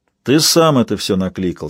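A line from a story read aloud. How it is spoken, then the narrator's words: Plain. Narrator (Russian): сказал он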